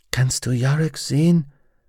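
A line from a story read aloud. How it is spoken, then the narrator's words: Whisper. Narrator (German): flüsterte sie Pantalaimon zu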